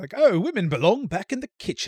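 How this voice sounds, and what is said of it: Put-on British accent. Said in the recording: “they thought you would read it in a British accent”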